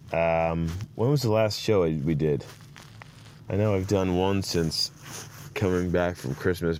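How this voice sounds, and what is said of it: Scratchy voice from a cold. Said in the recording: “My voice is scratchy. ... Coming at you with a cold.”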